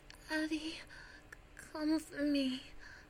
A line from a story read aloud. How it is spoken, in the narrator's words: I gasp